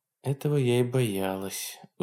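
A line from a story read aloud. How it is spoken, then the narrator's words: Sigh. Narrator (Russian): вздохнула Хонор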